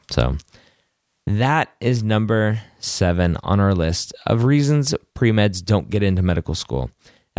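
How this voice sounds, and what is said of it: Worn-out, failing voice. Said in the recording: “my voice is getting ready to go”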